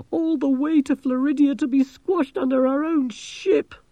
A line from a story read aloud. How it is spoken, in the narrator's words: moaned Angelo